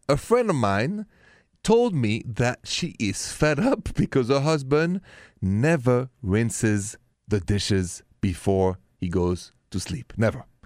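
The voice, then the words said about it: French accent. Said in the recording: “my accent is French, français”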